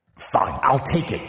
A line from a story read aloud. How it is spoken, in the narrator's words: Xu whispered